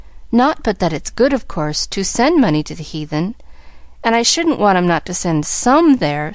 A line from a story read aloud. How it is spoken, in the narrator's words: sighed Pollyanna to herself, as she trudged sorrowfully along